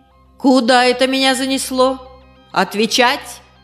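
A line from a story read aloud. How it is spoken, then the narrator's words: Loud bark, mimicking village elder. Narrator (Russian): гаркнула она, подражая старости деревни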